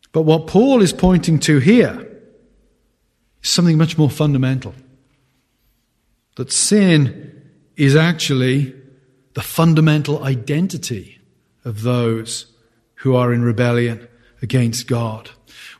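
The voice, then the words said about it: Non-American accent. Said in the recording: “You can tell from my accent, I'm not an American.”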